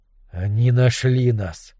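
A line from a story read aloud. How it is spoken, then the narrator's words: Breathed out. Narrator (Russian): выдохнул Немрод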